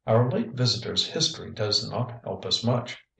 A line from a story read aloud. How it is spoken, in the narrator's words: replied